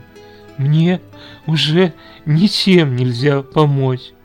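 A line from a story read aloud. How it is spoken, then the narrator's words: Tearful, sobbing. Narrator (Russian): Слезы безудержно побежали по лицу девушки, и она, всхлипывая, ответила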